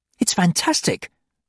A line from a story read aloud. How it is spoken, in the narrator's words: she exclaimed, hurrying